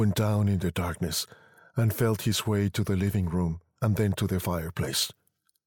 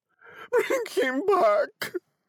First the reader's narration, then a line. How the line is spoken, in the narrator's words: cried the old woman